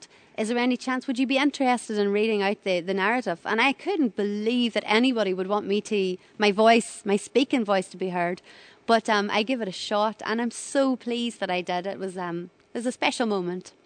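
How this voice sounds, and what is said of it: Thick, sweet-sounding foreign accent. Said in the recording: “obviously you can hear how I'm talking. My accent is quite thick ... such a sweet, cute accent”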